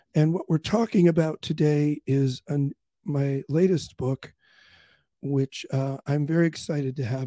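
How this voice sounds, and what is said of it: Strained, failing voice. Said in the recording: “my voice is a problem ... in case my voice disappears”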